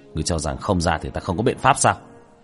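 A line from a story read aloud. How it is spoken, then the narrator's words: Cold. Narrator (Vietnamese): Tiểu Thất lạnh lùng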